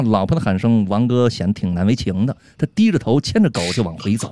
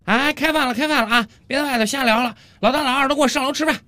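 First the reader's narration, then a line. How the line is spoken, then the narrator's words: Woman shouting downstairs. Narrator (Chinese): 王哥他老婆冲着楼下的王哥大声喊道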